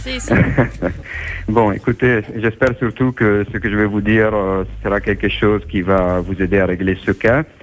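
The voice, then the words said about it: Italian accent in French. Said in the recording (French): “mon accent, mais je suis un Italien ... Quand on a l'accent italien, c'est un plus”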